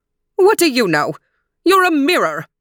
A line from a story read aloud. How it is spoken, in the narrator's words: roared the queen